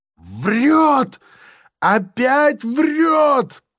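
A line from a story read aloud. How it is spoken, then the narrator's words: Shrill squealing interruption. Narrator (Russian): прерывает с каким-то визгом Булкин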